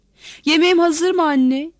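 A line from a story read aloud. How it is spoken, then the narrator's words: Shouted. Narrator (Turkish): diye bağırdı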